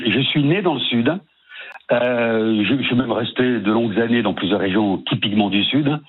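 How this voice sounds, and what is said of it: Slight sing-song southern French accent. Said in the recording (French): “Parce qu'il y a un petit accent ... ce petit accent chantant”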